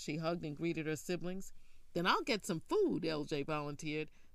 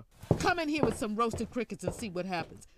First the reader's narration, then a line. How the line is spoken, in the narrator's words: Faye yelled after him